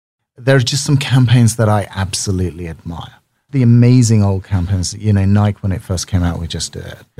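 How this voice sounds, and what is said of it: Speaks with a noticeable accent. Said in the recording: “The accent helps.”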